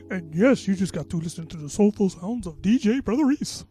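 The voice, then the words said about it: Generic DJ radio voice. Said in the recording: “That's my generic radio voice right there.”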